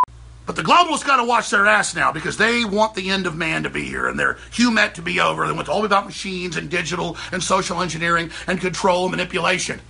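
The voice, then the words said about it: Imitates another person's voice. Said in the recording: “Was that any good? I'm not very good with my Alex Jones impersonation.”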